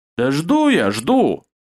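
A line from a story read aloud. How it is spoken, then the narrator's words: Angry reply. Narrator (Russian): зло ответил Гонта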